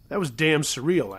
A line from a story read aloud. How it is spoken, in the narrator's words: I said